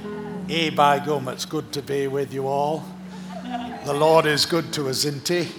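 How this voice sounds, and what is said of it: Northern English accent. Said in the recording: “north of England, my place of birth ... by my accent”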